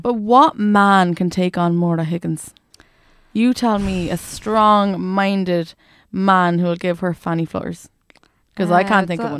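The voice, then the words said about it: Well-done put-on accent. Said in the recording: “That was a very good accent.”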